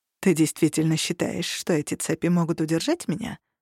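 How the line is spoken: Plain. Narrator (Russian): спросил он

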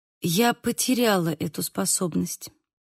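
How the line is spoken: Quiet. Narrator (Russian): сказала я тихо

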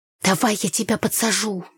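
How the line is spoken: Hiss. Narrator (Russian): зашипела я Танюхе

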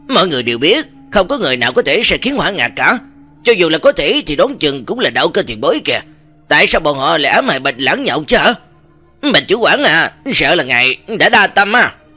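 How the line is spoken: Mocking young man. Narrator (Vietnamese): Người trẻ tuổi vừa rồi mới mỉa mai Bạch Lãng tiếp lời

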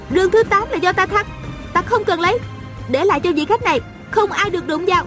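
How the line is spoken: Shouted. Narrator (Vietnamese): A Cửu la lên

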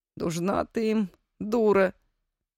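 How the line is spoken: Uncertain grumble. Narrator (Russian): неуверенно буркнул дядя Петя

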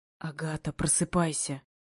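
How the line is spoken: Agitated whisper. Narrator (Russian): Взволнованный шепот

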